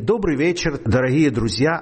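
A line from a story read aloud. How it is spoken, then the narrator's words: Plain. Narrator (Russian): а сказала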